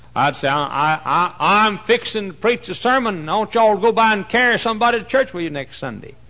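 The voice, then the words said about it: Strong regional accent. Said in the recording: “my accent was even worse then than it is now ... They couldn't understand what I was saying ... Poor ignorant Yankees didn't know what I was talking about.”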